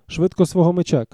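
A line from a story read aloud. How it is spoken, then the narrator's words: Shouted. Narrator (Ukrainian): крикнув Рендом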